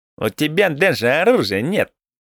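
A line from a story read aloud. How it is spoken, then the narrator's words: Skeptical snort. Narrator (Russian): хмыкнул Плацента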